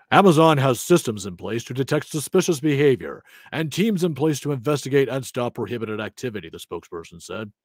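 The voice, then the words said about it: Corporate PR spokesperson voice. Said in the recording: “in your Amazon PR voice”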